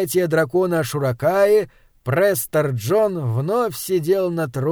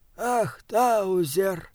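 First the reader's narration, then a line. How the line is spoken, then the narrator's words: Sighing. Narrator (Russian): вздохнул он наконец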